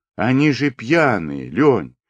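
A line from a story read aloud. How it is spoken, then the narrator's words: Frightened exclamation. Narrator (Russian): воскликнула Клавка испуганно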